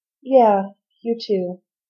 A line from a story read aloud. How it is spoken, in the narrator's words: Rodney replied, a little sadly